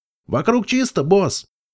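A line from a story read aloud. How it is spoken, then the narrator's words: Shout. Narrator (Russian): крикнул Пегас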